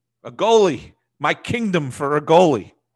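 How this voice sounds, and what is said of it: Actor impression with New York accent. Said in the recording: “like a New Yorker, like a Jewish New Yorker ... Al Pacino ... With a little bit of a New York accent.”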